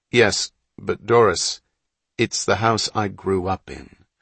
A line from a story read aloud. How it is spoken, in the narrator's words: Hatch said, gently but firmly